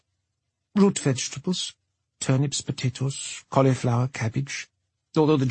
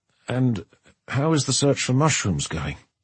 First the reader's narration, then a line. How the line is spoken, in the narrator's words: She sighed